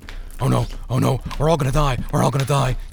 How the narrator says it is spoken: he mumbled

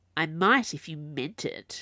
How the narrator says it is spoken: she said, irritably

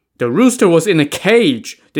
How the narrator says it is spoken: the incredulous clerk shouted

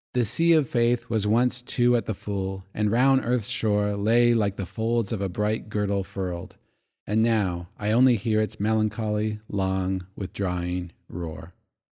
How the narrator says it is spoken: The poet Matthew Arnold sadly said

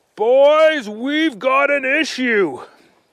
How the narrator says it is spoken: their dad yelled

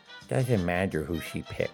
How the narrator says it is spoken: Horace whispered to Teddy

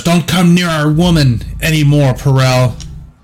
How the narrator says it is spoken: hollers

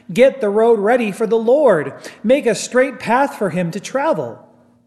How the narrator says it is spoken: Someone is shouting in the desert

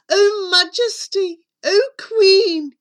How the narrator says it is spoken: he cried

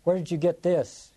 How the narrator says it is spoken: He cried at her across the room

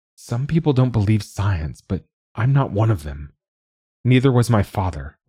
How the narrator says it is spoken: Laura said

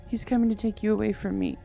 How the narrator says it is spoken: she gasped out

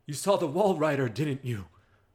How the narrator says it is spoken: Father Martin yells to Miles

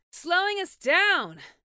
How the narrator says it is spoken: shouted over the noise of the fire and wind

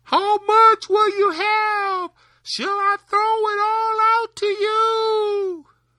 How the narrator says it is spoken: Tom bawled out again

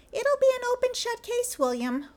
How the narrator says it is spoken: William squeaked in a high falsetto

